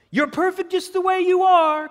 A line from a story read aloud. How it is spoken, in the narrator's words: Coach Smooth hollered